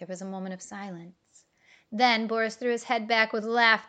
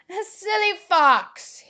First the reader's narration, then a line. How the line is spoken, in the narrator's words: exclaimed